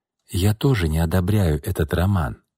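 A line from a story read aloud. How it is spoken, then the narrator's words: Calm. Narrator (Russian): спокойно произнесла София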